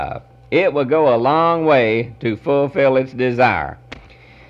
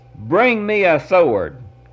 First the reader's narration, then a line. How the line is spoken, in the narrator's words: exclaimed